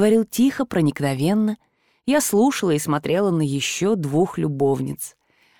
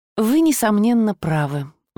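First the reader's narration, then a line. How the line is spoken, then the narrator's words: Sigh. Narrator (Russian): вздохнула я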